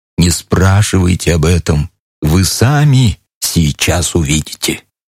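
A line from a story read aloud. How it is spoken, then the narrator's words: Whispered. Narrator (Russian): плацмайор шепнул мне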